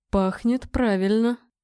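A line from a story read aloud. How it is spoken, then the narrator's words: Mutter. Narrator (Russian): пробормотал он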